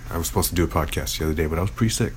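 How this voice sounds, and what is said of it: Rough, sick-sounding voice. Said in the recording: “My voice is pretty bad. I got sick.”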